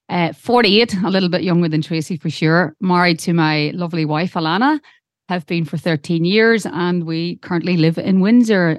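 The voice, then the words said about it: Irish accent. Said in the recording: “I know it sounds like we have an Irish accent, but it is real.”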